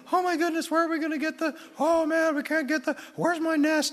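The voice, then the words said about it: High-pitched fretting bird voice. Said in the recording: “I don't even know if that's what a bird sounds like. I'm just assuming it's a high voice.”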